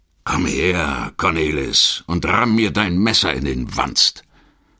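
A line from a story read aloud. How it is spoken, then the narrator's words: Rough laugh. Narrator (German): Osseljöken lachte rau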